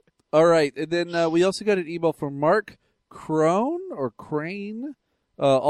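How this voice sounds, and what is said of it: Usual voice. Nothing is said of it.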